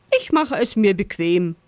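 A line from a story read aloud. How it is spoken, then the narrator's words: Laughing fox. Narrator (German): lacht der Fuchs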